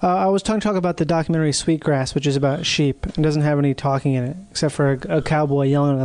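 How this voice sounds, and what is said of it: Usual voice. Nothing is said of it.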